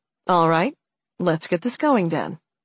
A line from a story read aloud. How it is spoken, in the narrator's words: he said calmly